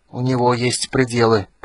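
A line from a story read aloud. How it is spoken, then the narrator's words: Hoarse wheeze. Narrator (Russian): просипел Речной Ветер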